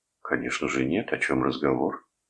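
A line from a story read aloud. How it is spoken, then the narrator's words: Calm reply. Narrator (Russian): Кивнув спокойно, отозвался Арнольд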